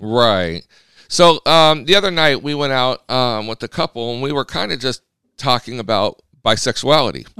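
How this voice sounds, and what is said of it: Slightly rough, scratchy voice. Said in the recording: “My voice is a little scruffly today ... we've got some allergies going on.”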